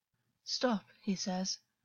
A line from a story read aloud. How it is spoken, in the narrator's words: Augus muttered to himself